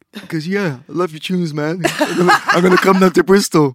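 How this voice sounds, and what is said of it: Imitates another person's voice. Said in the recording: “that's my Brian G impression ... Right, that's quite ... good.”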